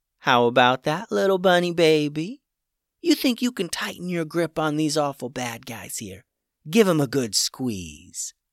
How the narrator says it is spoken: in her cute animal talking voice, she said

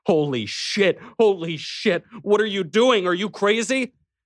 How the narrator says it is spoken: screaming at him

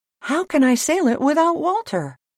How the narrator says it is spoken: he cried

